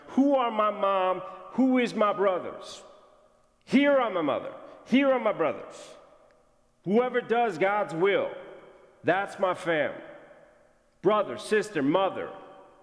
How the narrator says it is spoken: he shouts

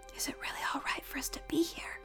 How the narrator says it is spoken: Pig whispered to the Ostrich Priestess

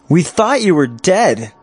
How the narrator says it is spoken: he shouted

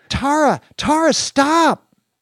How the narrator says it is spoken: Dorothy screamed

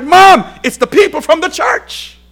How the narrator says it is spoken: he shouted

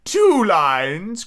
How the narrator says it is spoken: cried the mock turtle

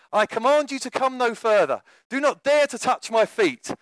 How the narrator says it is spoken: cried Canute

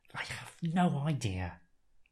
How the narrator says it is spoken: the doctor hisses back

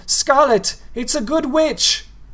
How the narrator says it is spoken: he shouted after her

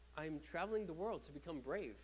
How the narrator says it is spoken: Miobe answered

